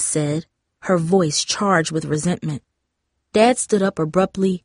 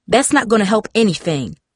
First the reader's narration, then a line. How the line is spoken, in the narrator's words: Mom snapped